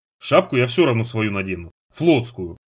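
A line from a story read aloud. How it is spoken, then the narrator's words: Grumbling. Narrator (Russian): буркнул Нанос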